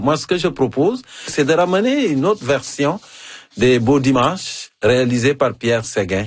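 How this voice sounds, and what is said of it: African-accented French. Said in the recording (French): “avec mon accent africain ... C'est encore plus savoureux avec ton accent africain”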